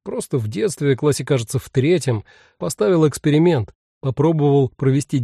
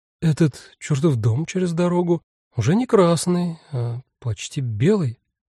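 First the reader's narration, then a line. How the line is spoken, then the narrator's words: Bewildered. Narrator (Russian): растерянно сказала амазонка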